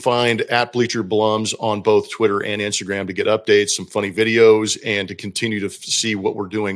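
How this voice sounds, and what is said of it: Hoarse, fading voice. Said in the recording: “Why does my voice only go out? ... why is your voice going out anyway?”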